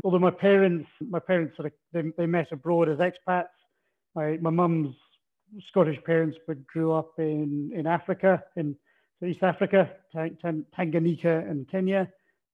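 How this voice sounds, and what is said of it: Scottish Aberdonian accent. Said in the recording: “you probably picked from my accent, not born in Australia, originally from northeast Scotland, so I'm Aberdonian”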